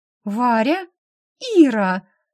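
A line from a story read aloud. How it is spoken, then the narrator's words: Two voices exclaiming together. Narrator (Russian): воскликнув это одновременно, две дамы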